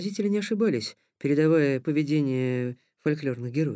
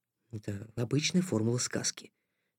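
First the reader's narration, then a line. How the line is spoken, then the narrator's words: Quiet reply. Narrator (Russian): так же тихо отозвался Никита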